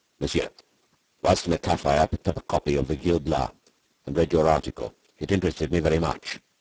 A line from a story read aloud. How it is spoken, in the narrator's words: he said to me, in a rough voice that confirmed my suspicion as to his social position